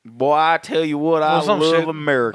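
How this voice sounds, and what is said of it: Put-on country accent. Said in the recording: “I don't know why we give him a country accent.”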